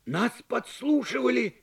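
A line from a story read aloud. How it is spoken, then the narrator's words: Exclaimed. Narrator (Russian): воскликнул Док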